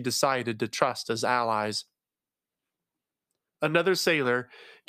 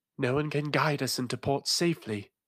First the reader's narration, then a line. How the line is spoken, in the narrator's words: sighed